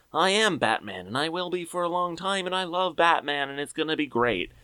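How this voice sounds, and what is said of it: Imitates another person's voice. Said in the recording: “great Ben Affleck impression.”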